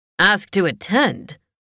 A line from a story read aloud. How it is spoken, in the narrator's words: Her father interrupted with a rumbling laugh